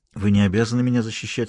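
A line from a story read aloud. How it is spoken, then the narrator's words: Plain. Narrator (Russian): сказала она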